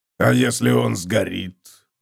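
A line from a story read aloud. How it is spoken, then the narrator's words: Muttered. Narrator (Russian): пробормотал Готрек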